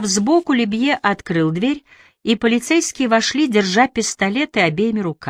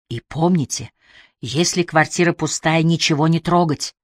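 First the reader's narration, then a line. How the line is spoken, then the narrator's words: Whispered. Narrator (Russian): шепнул Уоткинс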